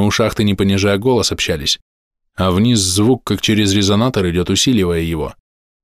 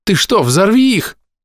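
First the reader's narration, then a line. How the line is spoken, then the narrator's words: Sharp cry. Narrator (Russian): вскрикнула Паля, которая приметила мои незаконченные приготовления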